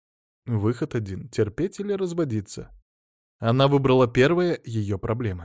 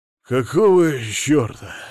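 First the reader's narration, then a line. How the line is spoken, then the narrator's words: Hoarse. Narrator (Russian): хрипло сказал Мамонов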